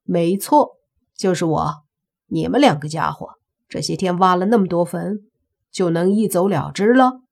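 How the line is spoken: Calm, faint smile. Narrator (Chinese): 莫凡淡淡的一笑

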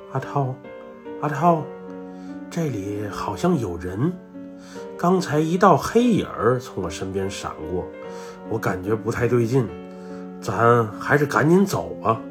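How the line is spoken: Panicked whisper. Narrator (Chinese): 威哥就惊慌地……对着我的耳朵小声说道

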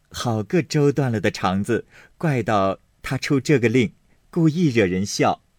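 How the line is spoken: Amused crowd speaking. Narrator (Chinese): 众人都笑了，说

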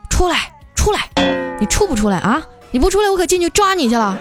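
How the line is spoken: Helpless shouting. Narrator (Chinese): 没办法呀，小黑就只能在车旁边喊

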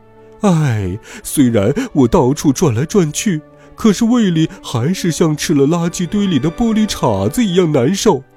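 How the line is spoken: Sighing. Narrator (Chinese): 第二只狐狸叹了口气

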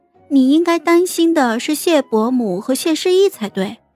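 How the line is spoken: Coy, sweet girl's voice. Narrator (Chinese): 他的小姑娘声音娇俏的说道

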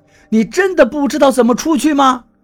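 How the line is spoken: Shouting. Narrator (Chinese): 我冲柳涛喊道

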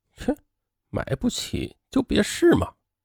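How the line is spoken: Muttered. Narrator (Chinese): 导购小姐……嘴里是嘟囔了一句

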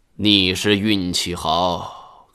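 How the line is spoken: Sighing. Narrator (Chinese): 黄宪章叹了两口气道

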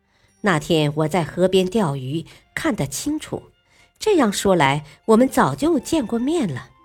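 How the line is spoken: Laughing. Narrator (Chinese): 少君笑道

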